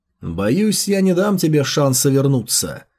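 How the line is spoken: Distant, indifferent voice. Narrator (Russian): безразличным голосом прозвучало в отдалении

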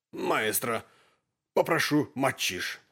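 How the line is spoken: Strained, choked voice. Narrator (Russian): сказал он сдавленным голосом

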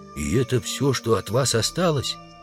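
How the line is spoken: Whispered question. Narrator (Russian): Удалов спросил шепотом

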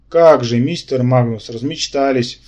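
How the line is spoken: Snorted. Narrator (Russian): фыркнул я

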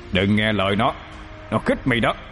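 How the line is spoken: Harsh, stern voice. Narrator (Vietnamese): Mã Linh Nhi gằn giọng

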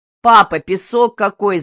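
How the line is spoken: Girls shouting. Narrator (Russian): закричали две светловолосые девчушки

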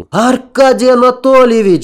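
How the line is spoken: Shouting. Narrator (Russian): закричал

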